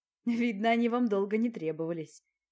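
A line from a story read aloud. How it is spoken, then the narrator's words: Laughing man. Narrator (Russian): рассмеялся мужчина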